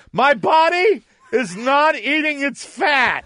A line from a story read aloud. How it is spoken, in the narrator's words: I said this at the top of my lungs